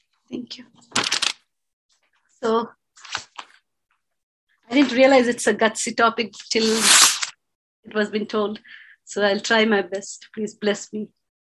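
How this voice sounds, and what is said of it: Slightly stuffy, congested voice. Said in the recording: “forgive me, I have a little cold.”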